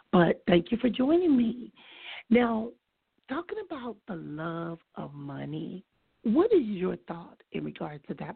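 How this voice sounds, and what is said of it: Put-on sexy voice, strained. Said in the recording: “I'm going to try to talk with my sexy voice because my regular voice just is not working right about now”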